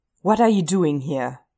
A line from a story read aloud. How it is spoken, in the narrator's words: Derek snaps at him, pale with rage